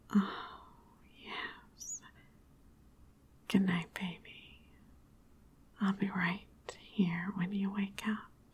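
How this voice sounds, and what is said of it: Sultry seductive voice. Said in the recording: “My sexy voice in your ears again”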